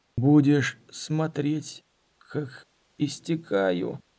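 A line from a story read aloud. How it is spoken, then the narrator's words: Hoarse rasp after swallowing. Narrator (Russian): Дорин сглотнул и прохрипел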